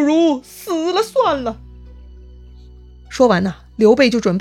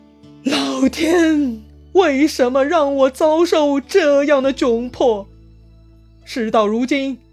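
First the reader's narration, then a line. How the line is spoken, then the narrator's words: Sighing, anguished shout. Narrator (Chinese): 刘备仰天长叹，大喊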